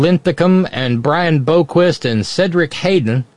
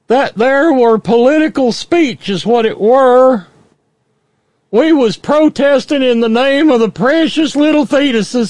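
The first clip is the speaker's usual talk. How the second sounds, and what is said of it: Put-on rural dialect voice. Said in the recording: “Sorry, wrong accent, I know.”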